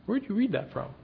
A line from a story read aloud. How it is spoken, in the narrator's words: He calmly asked